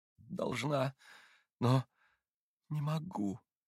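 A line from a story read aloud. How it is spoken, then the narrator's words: Moaning. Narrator (Russian): как бы простонала Катя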